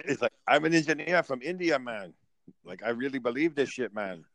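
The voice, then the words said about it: Put-on Indian accent sounding Jamaican. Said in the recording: “you do that racist accent ... That Jamaican accent for an India person”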